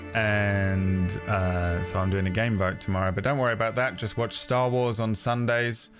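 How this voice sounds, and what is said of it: Strained, worn-out voice. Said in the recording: “My voice is absolutely destroyed.”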